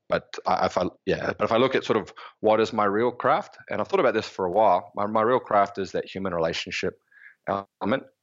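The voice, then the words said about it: New Zealand accent. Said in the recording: “The accent that you're bearing from New Zealand”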